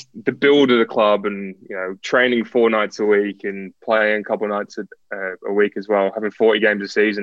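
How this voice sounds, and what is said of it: Mixed English and Australian accent. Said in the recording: “my accent's kind of weird. So it goes in and out of between English and Australian. ... It does a bit. Yeah, it does. ... I've got the English Australian accent”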